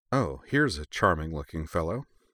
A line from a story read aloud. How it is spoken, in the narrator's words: she said dryly